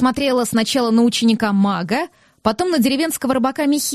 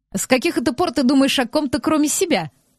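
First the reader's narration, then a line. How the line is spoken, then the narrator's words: Scoffing. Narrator (Russian): хмыкнул Рион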